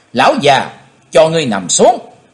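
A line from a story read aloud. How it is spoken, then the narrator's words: Loud shout. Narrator (Vietnamese): chàng hét to lên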